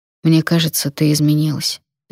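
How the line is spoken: Said quietly. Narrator (Russian): тихо сказал

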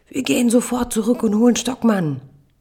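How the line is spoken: Tearful child bellowing. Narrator (German): Die Augen meiner Tochter füllen sich mit Tränen, ihr Körper spannt sich an, brüllt

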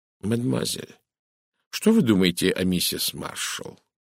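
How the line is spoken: Quiet question. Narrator (Russian): негромко спросил Эркюль Пуаро

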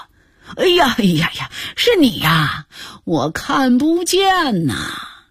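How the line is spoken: Quiet, suppressing laughter. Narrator (Chinese): 金雅琴努力地克制住自己的笑声，小声地说

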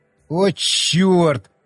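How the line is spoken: Groaning. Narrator (Russian): простонал я

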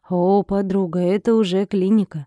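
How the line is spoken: Drawled. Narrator (Russian): протянула Ника

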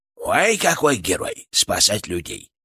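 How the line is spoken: Creaky voice inside head. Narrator (Russian): проскрипел он у меня в голове

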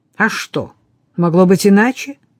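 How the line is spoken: Sharp. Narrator (Russian): резко произнес Патрик

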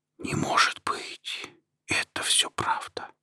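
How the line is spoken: Whispered to himself. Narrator (Russian): шептал себе Вадим

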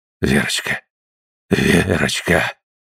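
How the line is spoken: Breathless, faltering whisper. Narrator (Russian): прошептал он, задыхаясь, и неуверенно

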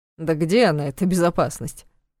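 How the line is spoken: Snorting. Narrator (Russian): хмыкнул Дементьев

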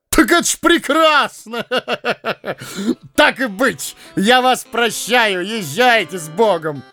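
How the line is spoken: Loud laughter. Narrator (Russian): Расхохотался фон Штраумберг

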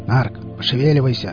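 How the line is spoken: Growl. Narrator (Russian): рыкнул Виллис

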